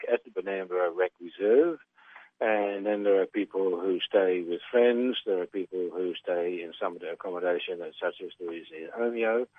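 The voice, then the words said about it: Dutch accent. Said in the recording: “your accent, what's the background there? Is it Dutch? ... Correct, yep. ... I'm Dutch.”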